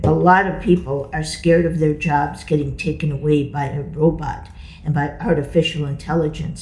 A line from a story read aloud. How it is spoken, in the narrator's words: he said